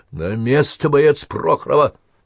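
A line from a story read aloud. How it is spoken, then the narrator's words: Fierce commanding shout. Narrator (Russian): крикнула так грозно, что только могла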